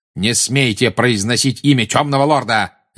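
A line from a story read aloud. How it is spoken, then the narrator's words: Barked. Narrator (Russian): рявкнул Снег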